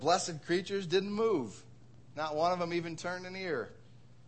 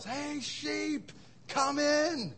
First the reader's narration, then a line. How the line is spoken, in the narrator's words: Bill takes a deep breath, and he yells